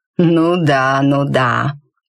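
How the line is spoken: Big man's drawl. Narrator (Russian): протянул здоровяк тоном

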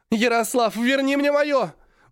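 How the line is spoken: Yelling into phone. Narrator (Russian): уже орала в телефон Аня

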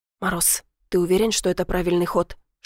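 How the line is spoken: Whispered question. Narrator (Russian): шепотом спросил Сашка

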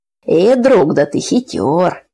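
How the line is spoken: Laughing. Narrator (Russian): засмеялся Петька

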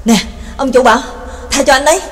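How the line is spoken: Panting, hurried. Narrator (Vietnamese): Nhạc Dương thở hổn hển, vội vàng nói

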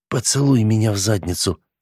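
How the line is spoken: Muttered. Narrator (Russian): пробормотал провизор

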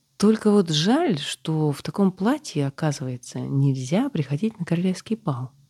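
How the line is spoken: Calm. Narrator (Russian): спокойно сказала

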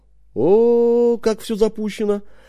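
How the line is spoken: Drawling. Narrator (Russian): протянул я

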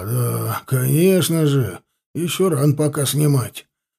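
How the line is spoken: Thoughtful grumble. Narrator (Russian): С глубокомысленным видом пробурчал дядька

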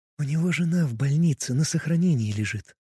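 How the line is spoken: Whispered into ear. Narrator (Russian): прошептала мне на ушко Варвара

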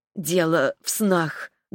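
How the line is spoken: Trembling voice. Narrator (Russian): дрогнувшим голосом объяснила Ретта

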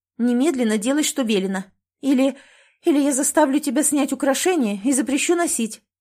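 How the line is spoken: Shouting. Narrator (Russian): выкрикнула Лиза

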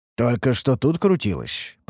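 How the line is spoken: Mutter. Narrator (Russian): пробормотал Ерджун

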